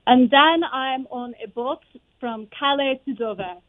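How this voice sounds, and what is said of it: Speaks with a slight French accent. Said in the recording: “that I can pronounce with a little bit of French ... try to figure out what this would sound like”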